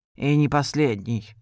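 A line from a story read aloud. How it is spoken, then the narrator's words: Muttering to himself. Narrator (Russian): пробормотал он себе под нос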